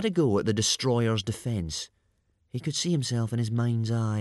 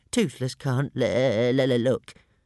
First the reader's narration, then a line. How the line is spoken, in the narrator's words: moaned Toothless, with his wings over his eyes